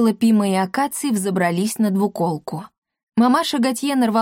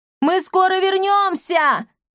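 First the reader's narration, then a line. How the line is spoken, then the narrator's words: Shout. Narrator (Russian): крикнула Сцилла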